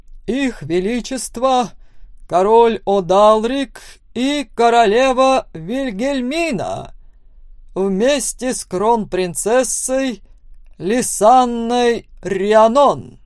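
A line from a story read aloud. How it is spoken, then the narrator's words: Loud announcement. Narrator (Russian): громко объявил мастер церемоний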